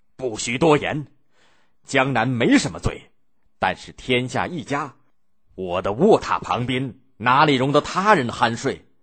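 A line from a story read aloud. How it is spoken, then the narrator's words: Enraged. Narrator (Chinese): 宋太祖……大怒说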